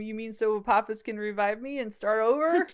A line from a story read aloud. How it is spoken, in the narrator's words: He laughs